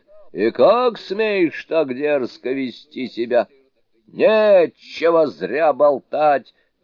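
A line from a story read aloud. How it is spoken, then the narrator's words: Full-force shout. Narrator (Russian): Тоже во всю мощь закричал Суню-кун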